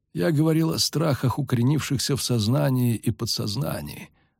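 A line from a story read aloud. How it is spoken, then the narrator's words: Calm explanation. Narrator (Russian): спокойно пояснил он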